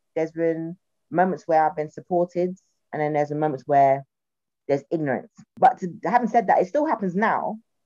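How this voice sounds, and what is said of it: South London accent. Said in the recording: “I can tell from my voice, I'm a South Londoner”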